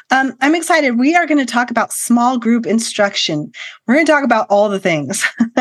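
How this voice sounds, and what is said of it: Slightly altered voice from a cold. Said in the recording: “My voice sounds a little funny today because I'm recovering from a cold”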